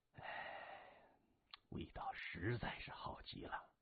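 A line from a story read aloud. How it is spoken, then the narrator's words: Contented sigh. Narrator (Chinese): 麻风一脸享受，闭眼叹道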